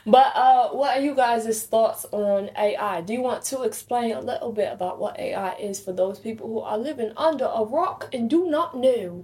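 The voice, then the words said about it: Put-on accent. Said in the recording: “Let's see if I can keep this accent the entire episode.”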